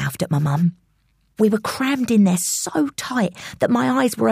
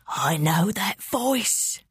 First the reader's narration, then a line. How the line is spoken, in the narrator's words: whispered